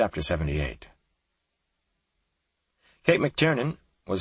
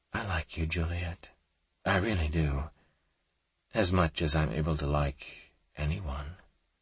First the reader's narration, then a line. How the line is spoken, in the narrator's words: the gentleman said in his softest voice